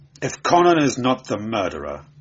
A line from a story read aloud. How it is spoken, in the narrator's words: he snapped